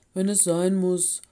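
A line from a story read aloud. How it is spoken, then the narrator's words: Barked from the back. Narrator (German): bellten die beiden Eiswürfe Bruce und Willis aus der letzten Reihe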